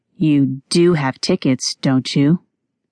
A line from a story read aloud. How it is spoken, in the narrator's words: Staring at them scornfully, he asked